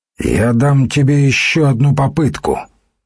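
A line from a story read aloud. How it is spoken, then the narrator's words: Loud over surrounding noise. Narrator (Russian): воевода говорил громко, чтобы перекрыть звуки того, что происходило в доме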